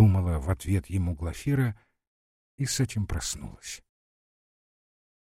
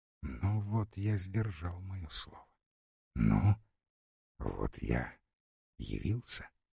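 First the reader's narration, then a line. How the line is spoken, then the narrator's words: Quiet whisper. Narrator (Russian): он был так тих и шептал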